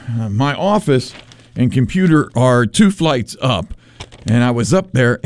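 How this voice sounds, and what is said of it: Out of breath, panting speech. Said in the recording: “I'm a little out of breath.”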